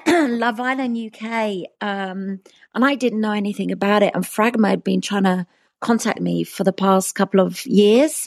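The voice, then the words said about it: Hoarse, failing voice. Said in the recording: “my voice is going.”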